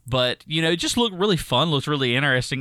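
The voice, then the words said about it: Thick Southern American accent. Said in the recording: “listen to me, I got a thick one ... Southern accent”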